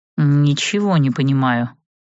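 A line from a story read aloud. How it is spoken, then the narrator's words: Grumbling. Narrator (Russian): ворчал он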